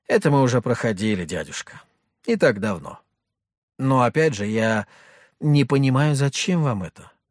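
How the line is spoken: Sighing. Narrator (Russian): вздохнул я

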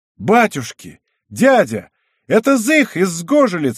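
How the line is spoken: Exclaiming. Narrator (Russian): воскликнул Збышка

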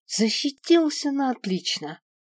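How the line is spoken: Breathless, exhaled. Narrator (Russian): выдохнул дракон

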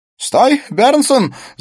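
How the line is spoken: Shouted. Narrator (Russian): закричал Смит

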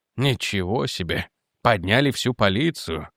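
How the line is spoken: Muttered. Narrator (Russian): пробормотал он

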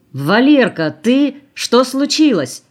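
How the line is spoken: Shouting. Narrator (Russian): крикнул он

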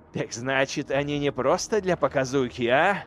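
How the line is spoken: Snorting. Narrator (Russian): фыркнул Эйделан

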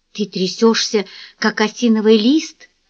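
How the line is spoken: Whisper. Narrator (Russian): шепнула ему Сэнди

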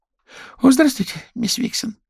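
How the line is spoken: Squeaky voice. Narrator (Russian): пискнул

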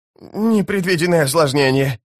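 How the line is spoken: Whining. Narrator (Russian): наконец проскулил он

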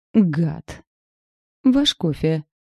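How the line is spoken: Haughty dry tone. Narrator (Russian): Вздернув нос, сообщила я сухим тоном

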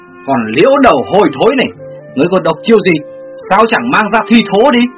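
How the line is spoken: Shrill hiss. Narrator (Vietnamese): Ngô Bạch Vân rít lên

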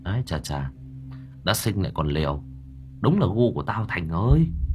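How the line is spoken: Muttering. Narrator (Vietnamese): Tôi lẩm bẩm

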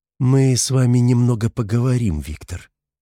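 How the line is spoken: Calm. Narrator (Russian): спокойно сказала Соня

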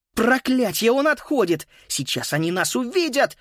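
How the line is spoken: Exclaimed. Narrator (Russian): воскликнула Фрида

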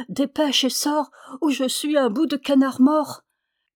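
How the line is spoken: Exclaimed. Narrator (French): s'écria

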